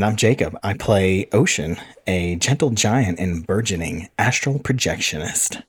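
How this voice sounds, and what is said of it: Usual voice. Nothing is said of it.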